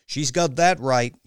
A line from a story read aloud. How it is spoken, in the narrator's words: yelled Misha